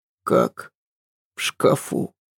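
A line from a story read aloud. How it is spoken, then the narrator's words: Hoarse, questioning. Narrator (Russian): переспросил он, охрипнув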